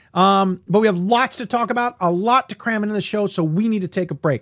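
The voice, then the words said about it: Slightly worn, hoarse voice. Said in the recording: “My voice is a little shot”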